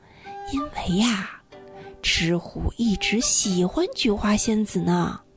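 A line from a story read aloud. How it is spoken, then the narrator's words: Hushed, low voice. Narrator (Chinese): 杨永乐压低了声音说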